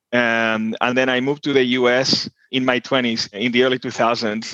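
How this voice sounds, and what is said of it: Argentine Spanish accent. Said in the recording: “in case you were wondering where my name and accent is from, I'm originally from Buenos Aires, Argentina”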